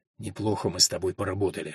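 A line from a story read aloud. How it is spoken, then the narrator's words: Whisper in the ear. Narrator (Russian): шепнул ей на ухо Альфред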